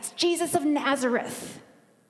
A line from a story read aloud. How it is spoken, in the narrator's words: But the boy shouts back